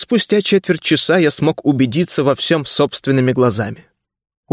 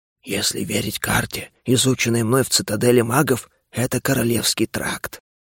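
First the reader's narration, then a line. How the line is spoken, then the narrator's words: Whisper. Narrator (Russian): шепотом сообщил мне дух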